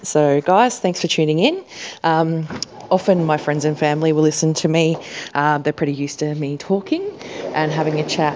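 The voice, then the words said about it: Australian accent. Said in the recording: “my amazing and probably ridiculous slang and Australian accent.”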